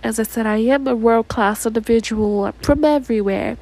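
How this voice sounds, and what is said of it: Put-on American accent. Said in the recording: “I'm going to go ahead and use my American accent”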